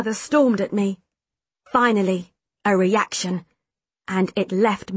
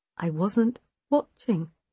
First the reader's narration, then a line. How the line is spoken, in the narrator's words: Mother said quietly